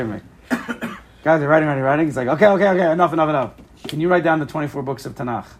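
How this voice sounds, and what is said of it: Usual voice. Nothing is said of it.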